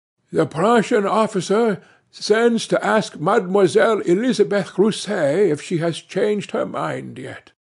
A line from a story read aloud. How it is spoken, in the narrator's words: Monsieur Follenvie … in his grating voice announced